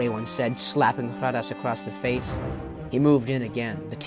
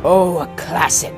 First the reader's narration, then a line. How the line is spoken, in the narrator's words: sneered Jetfarn